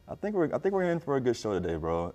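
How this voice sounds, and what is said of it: Polished announcer-style podcast voice. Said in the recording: “You heard the podcast voice turn on just now.”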